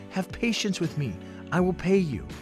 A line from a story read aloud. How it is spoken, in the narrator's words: fell down and pleaded with him